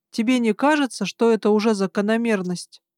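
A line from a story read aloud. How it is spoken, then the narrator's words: Plain. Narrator (Russian): сказал Гарн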